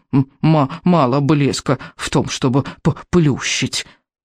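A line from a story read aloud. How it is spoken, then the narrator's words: Hissed in jealous fury. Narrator (Russian): прошипел Беззубик в ревнивой ярости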